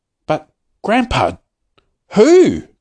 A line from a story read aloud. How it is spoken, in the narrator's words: cried Charlie